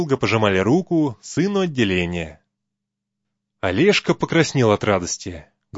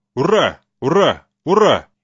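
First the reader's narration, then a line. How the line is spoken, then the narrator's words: Crowd shouting together. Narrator (Russian): все, как по команде, вздохнули глубже и крикнули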